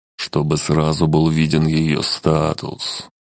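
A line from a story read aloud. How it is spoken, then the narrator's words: Gloomy muttering to himself. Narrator (Russian): мрачно сказал сам себе Килель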